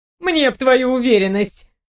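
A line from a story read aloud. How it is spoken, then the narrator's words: Scoffing snort. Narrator (Russian): хмыкнула Зои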